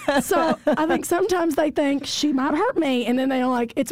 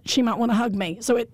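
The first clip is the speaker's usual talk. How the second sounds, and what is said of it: Put-on Southern accent. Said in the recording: “it's with a Southern accent.”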